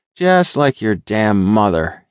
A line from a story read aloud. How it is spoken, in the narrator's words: grumbled